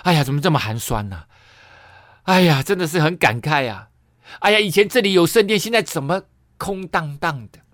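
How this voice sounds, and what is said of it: Wailing, lamenting voice. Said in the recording (Chinese): “哭嚎的声音说”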